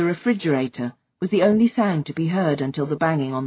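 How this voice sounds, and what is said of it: Usual voice. Nothing is said of it.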